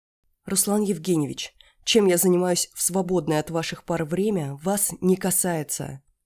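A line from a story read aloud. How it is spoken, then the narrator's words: Growl. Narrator (Russian): прорычала я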